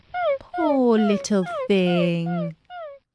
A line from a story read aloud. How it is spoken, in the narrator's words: said Alice in a coaxing tone